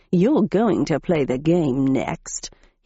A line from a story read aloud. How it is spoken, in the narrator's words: he growled